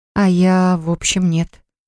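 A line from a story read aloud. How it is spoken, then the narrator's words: Sighing. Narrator (Russian): вздохнула Поля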